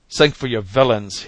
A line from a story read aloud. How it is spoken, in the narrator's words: he cried